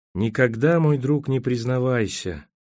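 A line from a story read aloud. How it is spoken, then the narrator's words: Sleepy. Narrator (Russian): сказал он сонно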